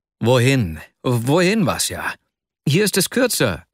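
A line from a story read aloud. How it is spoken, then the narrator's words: Called out. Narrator (German): rief er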